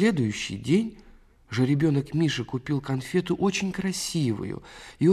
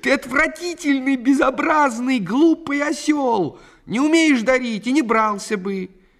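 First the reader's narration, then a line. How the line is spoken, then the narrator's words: Crying, shouting at full volume. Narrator (Russian): Вовка Попугаев заплакал и закричал во всю глотку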